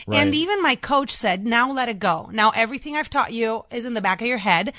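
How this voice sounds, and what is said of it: Chicago South Side accent. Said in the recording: “I'm really worried about my accent... I'm from the South Side... sound like a Southsider”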